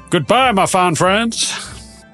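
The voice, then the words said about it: Put-on accent. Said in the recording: “A new accent in the outro.”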